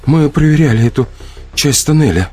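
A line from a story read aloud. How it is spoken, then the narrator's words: Trembling voice. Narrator (Russian): наконец заговорила Алекса подрагивающим голосом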